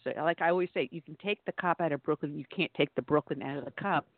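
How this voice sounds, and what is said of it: New York accent. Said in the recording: “as you can tell from my dialect, I am not from the South ... I am a native New Yorker”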